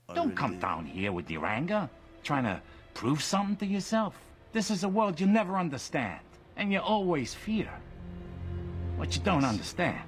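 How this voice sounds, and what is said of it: New York-sounding put-on accent. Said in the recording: “accent clip ... That's actually very good. ... It's more New York than Chicago ... It's pretty inconsistent all the way through the film”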